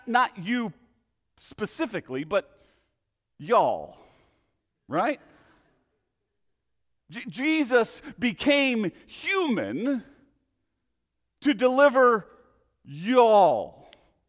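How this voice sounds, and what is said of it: Attempted Southern accent. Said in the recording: “I'm still working on my southern accents.”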